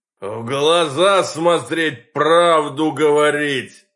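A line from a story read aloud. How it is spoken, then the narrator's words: Sudden roar. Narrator (Russian): Неожиданно взревел гражданин бессмертный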